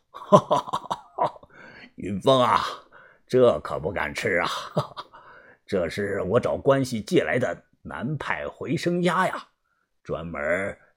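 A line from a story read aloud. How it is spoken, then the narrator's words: Hearty laughter. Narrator (Chinese): 把头哈哈笑道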